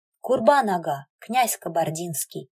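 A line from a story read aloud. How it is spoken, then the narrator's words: Solemn. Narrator (Russian): произносит торжественно Селим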